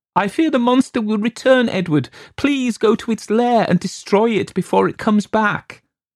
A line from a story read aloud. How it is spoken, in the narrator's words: She sobbed and said